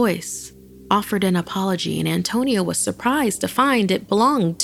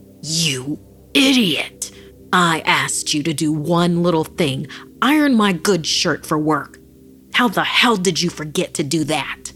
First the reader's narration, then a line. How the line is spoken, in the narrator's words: Filled with rage, Antonio found himself bellowing